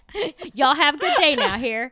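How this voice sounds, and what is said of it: Imitated Texas accent. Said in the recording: “he has like a perfect ... Texas accent.”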